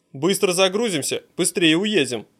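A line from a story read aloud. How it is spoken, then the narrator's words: Plain. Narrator (Russian): говорит он им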